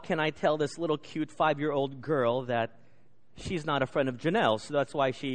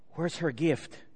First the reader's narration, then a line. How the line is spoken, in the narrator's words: I whispered to my little daughter